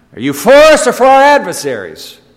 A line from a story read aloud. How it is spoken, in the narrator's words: he shouted